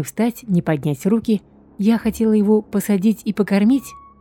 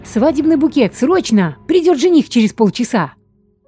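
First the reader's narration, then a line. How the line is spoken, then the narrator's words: Near-hysterical shout. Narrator (Russian): С порога почти в истерике крикнула хозяйка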